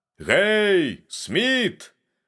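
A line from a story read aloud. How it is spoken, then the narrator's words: Shouted. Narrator (Belarusian): закрычаў ён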